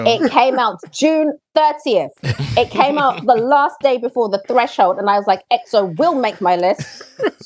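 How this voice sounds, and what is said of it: Shouting loudly. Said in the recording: “I'm shouting.”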